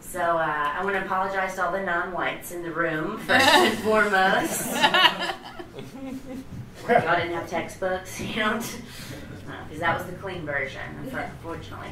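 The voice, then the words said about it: Southern US accent. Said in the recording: “I don't know if you hear the southern accent. I'm from Mississippi.”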